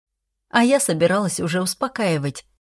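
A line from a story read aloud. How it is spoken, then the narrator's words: Nervous laugh. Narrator (Russian): нервно хохотнула я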